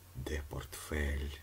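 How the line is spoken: Ghost's ominous hissing whisper. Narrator (Ukrainian): зловісним шепотом просичав привид

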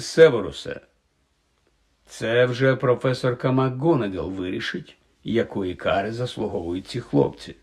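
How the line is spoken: Calm interruption. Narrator (Ukrainian): спокійно перервав його Дамблдор

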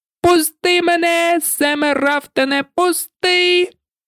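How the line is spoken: Frantic screaming. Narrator (Ukrainian): він пручався і верещав, мов різаний

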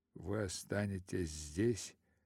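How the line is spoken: Muttering. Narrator (Russian): бормочет он еще раз

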